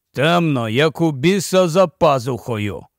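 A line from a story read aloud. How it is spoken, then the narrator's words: Displeased grumble. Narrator (Ukrainian): невдоволено буркнув Кості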